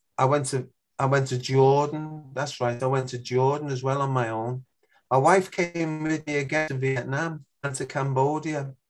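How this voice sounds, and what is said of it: Scouse accent. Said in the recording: “your Scouse accent ... an English accent”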